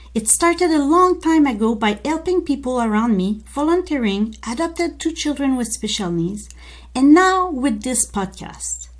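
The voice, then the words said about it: French Canadian accent in English. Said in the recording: “we both have an accent... We are proud Francophone English-speaking Canadian.”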